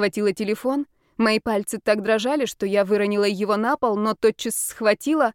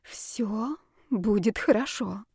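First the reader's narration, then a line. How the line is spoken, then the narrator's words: Whisper. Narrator (Russian): прошептала я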